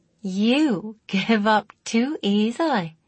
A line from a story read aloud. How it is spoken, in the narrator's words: Talia laughed, deep in her throat, like a cat purring